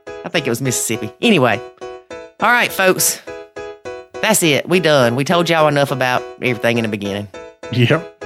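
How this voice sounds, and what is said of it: Strong accent. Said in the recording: “I had a strong accent, is what she said.”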